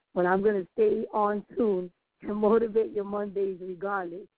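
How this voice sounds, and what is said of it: Raspy voice. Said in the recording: “Even my voice being raspy”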